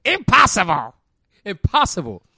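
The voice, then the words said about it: Villainous cartoon character voice. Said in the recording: “my Green Goblin voice”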